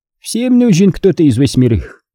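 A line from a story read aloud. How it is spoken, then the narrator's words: Habitual snort. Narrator (Russian): Алдат привычно хмыкнул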